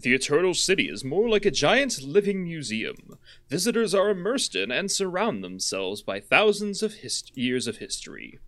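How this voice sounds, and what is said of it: Put-on narrator voice. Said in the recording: “I'm gonna pop in a narrator voice.”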